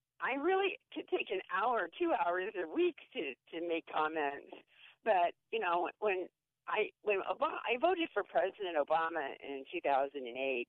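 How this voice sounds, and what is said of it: Hoarse, sore-throat voice. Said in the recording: “apologize for my voice because I have a sore throat”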